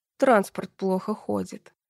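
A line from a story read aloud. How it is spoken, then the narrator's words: Through gritted teeth. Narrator (Russian): сквозь зубы ответил Андрей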